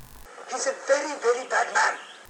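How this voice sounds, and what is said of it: Good impression of Babu. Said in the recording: “did a good Babu impression ... Here is ... doing his Babu impression.”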